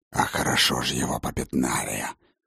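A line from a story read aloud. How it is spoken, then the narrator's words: Growled. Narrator (Russian): рыкнул Фенрир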